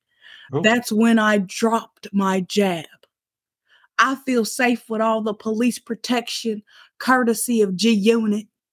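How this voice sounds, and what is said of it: Drifting Southern belle accent. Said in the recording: “You're kind of going to Southern Belle. ... It's all over the place. ... it's nothing like Fat Joe sounds like.”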